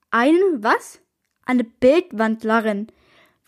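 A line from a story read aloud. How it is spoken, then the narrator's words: Girl repeating slowly. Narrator (German): wiederholte das Mädchen langsam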